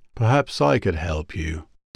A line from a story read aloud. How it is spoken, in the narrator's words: asked smoothly from the door